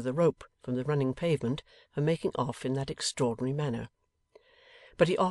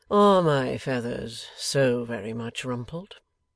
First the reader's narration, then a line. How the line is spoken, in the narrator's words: said Eugene, coolly